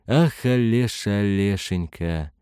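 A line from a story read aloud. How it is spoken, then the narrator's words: Moaning. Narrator (Russian): простонал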